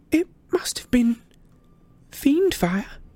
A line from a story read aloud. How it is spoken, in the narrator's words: whimpered Hermione